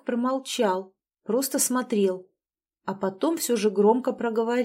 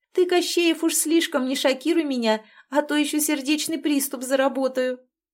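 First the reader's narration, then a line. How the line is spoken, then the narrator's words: Laughing remark. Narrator (Russian): Не сдержав эмоций, Василиса рассмеялась и заметила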